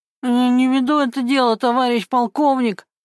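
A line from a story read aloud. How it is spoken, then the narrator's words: Frightened moan. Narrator (Russian): простонал Гена с перепугу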